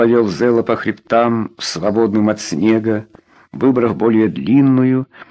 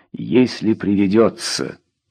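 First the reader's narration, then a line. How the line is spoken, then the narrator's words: Very calm inner thought. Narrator (Russian): про себя добавил очень спокойно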